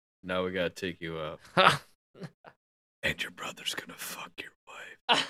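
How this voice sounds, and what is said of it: Creepy old man's whisper. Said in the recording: “you got the whisper down too! Oh, that's so creepy! ... He'd do that creepy old whisper”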